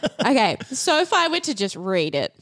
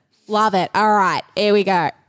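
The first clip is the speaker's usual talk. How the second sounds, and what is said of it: Put-on Australian accent, sounding cockney. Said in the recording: “Give us a gross Australian accent ... Oh, that's a bit cockney, isn't it? I don't know how to be Australian.”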